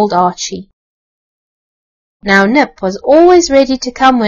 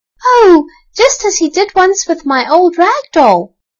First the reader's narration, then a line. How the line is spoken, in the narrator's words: cried Elsie